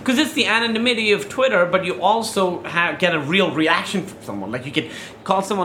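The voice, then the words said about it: Speaks with a noticeable accent. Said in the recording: “Because of my accent. ... they could tell.”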